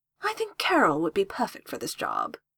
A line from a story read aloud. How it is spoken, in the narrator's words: Jess purred, looking exactly like the cat that swallowed the canary